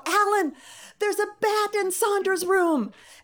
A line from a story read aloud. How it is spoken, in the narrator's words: yell